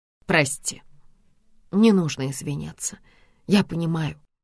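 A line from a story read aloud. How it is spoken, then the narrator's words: Quiet reply. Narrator (Russian): тихо отвечает она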